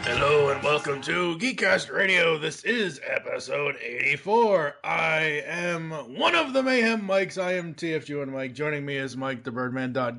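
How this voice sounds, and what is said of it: Strained, throat-pushed announcer voice. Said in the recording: “I can't do that with my voice ever again. Oh, that hurts. ... It really hurts to talk like this because I actually have to push into my throat to do it.”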